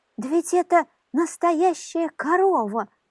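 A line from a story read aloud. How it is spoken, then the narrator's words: Joyful exclamation. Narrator (Russian): радостно воскликнула лососиха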